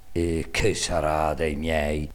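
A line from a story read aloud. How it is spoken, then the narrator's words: Sighed. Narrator (Italian): sospirava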